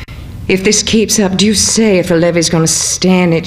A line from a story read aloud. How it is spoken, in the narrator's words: exclaimed